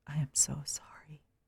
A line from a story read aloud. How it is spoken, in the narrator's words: whispered into her hair